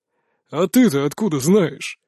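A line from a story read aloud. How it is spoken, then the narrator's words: Unamused snort. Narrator (Russian): хмыкнул, шутку не оценив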